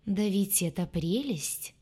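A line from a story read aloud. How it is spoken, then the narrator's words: Slow drawl. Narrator (Russian): проговорила она медлительным голосом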